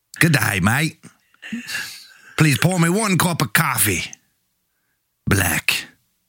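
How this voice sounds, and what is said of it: Put-on Australian accent. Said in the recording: “do accents ... You're from Australia”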